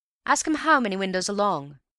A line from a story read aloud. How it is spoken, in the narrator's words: shouted the manager in high excitement